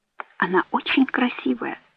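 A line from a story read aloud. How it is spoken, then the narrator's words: Whisper. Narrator (Russian): прошептала Мэгги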